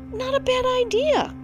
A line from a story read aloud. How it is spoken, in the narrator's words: cried the rabbits